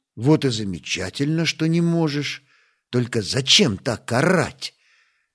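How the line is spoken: Trying to sound gentle. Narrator (Russian): Стас постарался говорить мягко

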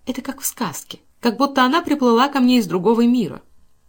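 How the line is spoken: Cheerful. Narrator (Russian): она весело сморщила носик и сказала

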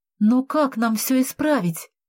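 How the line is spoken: Terrified exclamation. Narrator (Russian): в ужасе воскликнула я

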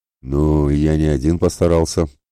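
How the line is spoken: Grumbled. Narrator (Russian): буркнул Ратибор

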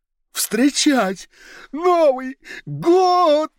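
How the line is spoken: Inner voice yelling again. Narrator (Russian): снова заорало что-то внутри Уриила

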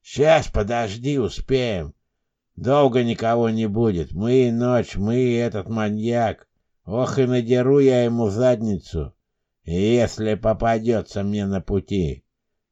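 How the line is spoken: Low drunken fat man. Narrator (Russian): низким пьяным голосом вещал толстяк

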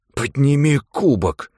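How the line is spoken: Hiss. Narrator (Russian): прошипел Джулиан

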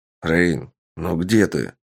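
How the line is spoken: Grumbling man. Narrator (Russian): ворчал мужчина

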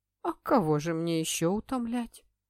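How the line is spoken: Woman chuckling. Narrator (Russian): хохотнула Петра Вестерброк

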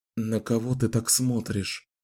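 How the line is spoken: Whisper. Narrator (Russian): прошептал

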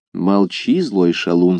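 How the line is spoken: Plain. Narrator (Russian): сказал аббат

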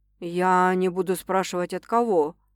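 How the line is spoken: Muffled. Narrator (Russian): глухо произносит

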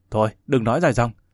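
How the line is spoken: Shouted. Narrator (Vietnamese): Tiền tố quát

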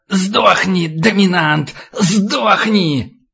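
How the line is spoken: Old man hissing in ear. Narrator (Russian): Старик шипел ему в ухо

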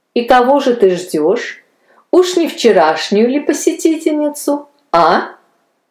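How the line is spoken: Laughing nurse reply. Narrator (Russian): Засмеялась в ответ медсестра

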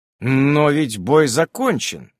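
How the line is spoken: Bewildered. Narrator (Russian): растерянно говорю я

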